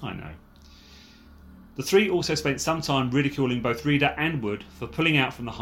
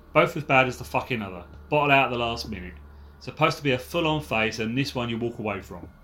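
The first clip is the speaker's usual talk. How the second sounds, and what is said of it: Put-on Cockney accent. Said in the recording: “I'm loving your cockney accent.”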